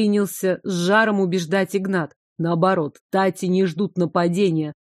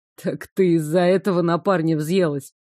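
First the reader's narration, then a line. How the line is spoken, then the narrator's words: Snorting. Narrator (Russian): хмыкнул Игнат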